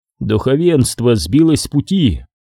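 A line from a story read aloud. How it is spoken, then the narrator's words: Plain. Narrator (Russian): сказал Дубаку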